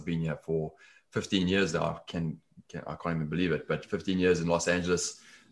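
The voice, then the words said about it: South African accent. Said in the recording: “The accent is South African originally.”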